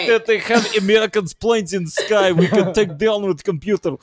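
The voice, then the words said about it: Put-on accent, convincingly done. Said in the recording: “the accent was so on point... little characters and voices”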